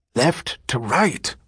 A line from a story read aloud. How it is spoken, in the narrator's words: whispered the priest harshly